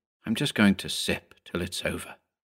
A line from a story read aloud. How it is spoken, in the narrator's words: Mark Burmann simply muttered